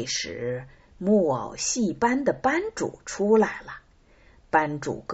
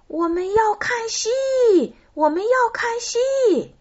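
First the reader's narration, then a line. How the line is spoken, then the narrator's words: Impatient crowd shouting. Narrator (Chinese): 观众受不了了，他们大声喊道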